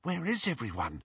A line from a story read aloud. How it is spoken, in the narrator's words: whispered Hermione